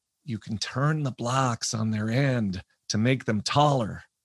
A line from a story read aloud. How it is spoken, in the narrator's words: The guy on the mat next to me, he whispered